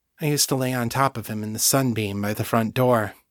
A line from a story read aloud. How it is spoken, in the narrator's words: said quietly